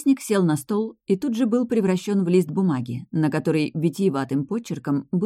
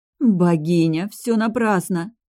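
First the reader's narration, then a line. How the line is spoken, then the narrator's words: Moaning. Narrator (Russian): Простонала я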